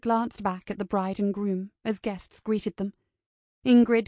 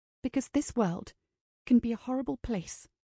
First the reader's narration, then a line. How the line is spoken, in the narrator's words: said softly